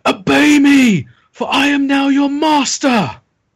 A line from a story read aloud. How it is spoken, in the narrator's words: he screams with fury